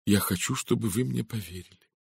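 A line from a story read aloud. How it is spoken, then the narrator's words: Sincere, with a sigh. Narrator (Russian): Редферн вздохнул и произнес искренним тоном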